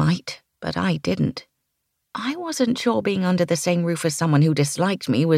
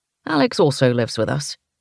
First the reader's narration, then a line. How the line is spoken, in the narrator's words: he said